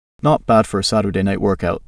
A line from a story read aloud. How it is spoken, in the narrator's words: Dom quipped, chuckling at his own joke